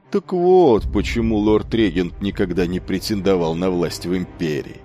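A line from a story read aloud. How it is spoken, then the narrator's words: Sarcastic remark. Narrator (Russian): Костолец язвительно добавил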